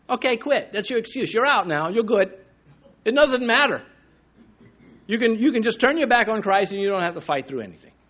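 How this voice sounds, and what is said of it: Sarcastic, facetious tone. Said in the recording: “that's being sarcastic a little bit, or a little facetious”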